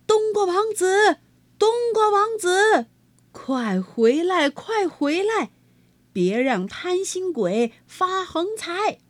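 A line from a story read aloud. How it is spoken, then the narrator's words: Loud calling. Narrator (Chinese): 金瓜 高声叫道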